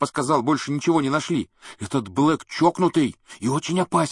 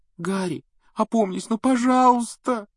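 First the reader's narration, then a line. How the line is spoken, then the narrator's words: Tearful pleading. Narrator (Russian): Со слезами взмолилась Гермиона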